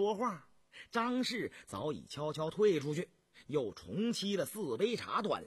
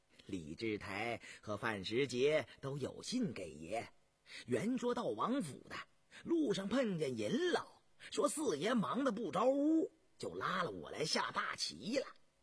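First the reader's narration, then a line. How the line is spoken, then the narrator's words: Laughing. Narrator (Chinese): 陈世官笑道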